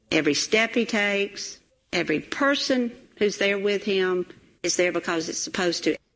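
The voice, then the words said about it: Southern Plains, Georgia accent. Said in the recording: “I love that accent, right? That Plains, Georgia accent.”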